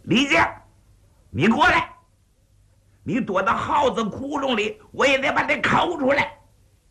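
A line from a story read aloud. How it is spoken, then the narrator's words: Roaring. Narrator (Chinese): 鹅扎大吼了一声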